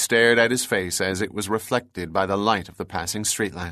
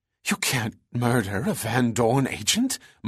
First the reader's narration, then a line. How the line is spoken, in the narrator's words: Margaret gasped